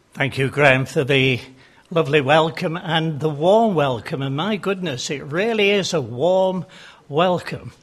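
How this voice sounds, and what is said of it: Yorkshire English accent. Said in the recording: “As you can tell from my accent, I'm not a Devonian. I come from Yorkshire.”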